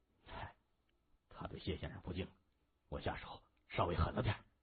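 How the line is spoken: Low voice. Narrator (Chinese): 沈清低声说

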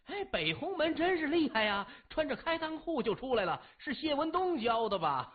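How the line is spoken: Crowd jeering laughter. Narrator (Chinese): 后面的南鸿门弟子都笑了，纷纷嚷着

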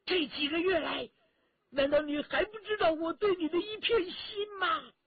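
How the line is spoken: Angry loud rebuke. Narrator (Chinese): 关明梅一听啊，双眉竖起，大声喝道

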